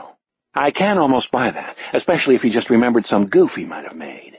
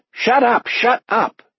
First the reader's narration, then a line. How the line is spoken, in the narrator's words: Ernie bellows to the others